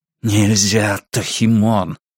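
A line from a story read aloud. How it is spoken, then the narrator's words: Breathed into ear. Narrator (Russian): выдохнул мне в ухо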